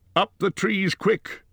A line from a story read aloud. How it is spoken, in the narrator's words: cried Gandalf